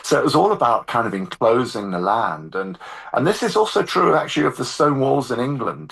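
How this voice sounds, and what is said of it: English accent. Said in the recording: “You mentioned that you lived in London, but you detect the accent”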